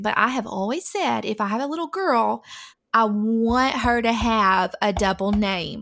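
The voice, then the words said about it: Southern American accent. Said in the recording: “I do have a Southern accent”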